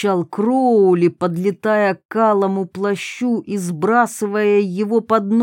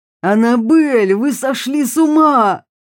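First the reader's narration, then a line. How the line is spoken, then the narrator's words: Shouting. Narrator (Russian): закричал он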